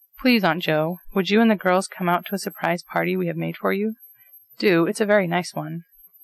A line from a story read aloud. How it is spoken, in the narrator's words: said, in the politest tone possible to a mortal boy of his years